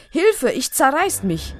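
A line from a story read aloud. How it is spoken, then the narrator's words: Strained roar. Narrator (German): Fast im Spagat brüllt Pelendo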